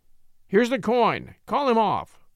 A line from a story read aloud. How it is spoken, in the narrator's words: gasped the lawyer